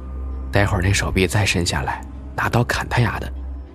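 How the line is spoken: Whispered plotting. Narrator (Chinese): 几个哥们儿开始合计，附耳嘀咕

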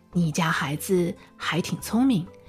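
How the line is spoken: Quiet. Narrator (Chinese): 低声地对布朗爸爸说

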